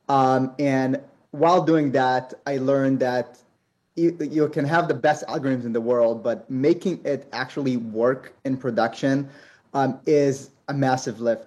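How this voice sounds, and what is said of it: Israeli accent. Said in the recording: “if you hear from the accent, I come from an Israeli background”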